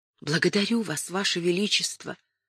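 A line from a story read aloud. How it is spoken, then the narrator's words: Whispered. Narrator (Russian): прошептала Кэтрин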